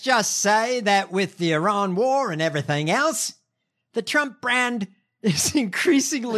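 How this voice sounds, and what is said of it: Usual voice. Nothing is said of it.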